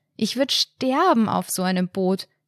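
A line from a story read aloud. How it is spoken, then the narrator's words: Shouted into wind. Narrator (German): in den Wind rief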